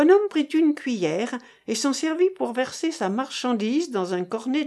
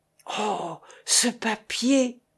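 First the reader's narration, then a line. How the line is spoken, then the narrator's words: Said quietly. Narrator (French): dit-elle à voix basse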